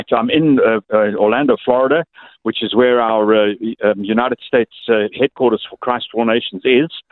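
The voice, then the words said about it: Zimbabwean English accent. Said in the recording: “your accent is Zimbabwean”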